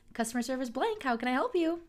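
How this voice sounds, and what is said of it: Fake, baby-talk customer service voice. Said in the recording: “My customer service voice is getting faker by the day ... customer service voice is baby talk for boomers.”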